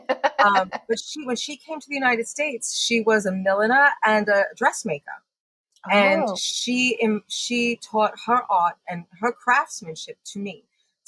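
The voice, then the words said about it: Mixed British and Long Island accent. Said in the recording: “who imbued me with this accent ... my accent is this interesting mix of growing up on Long Island and enforcement with my British grandmother”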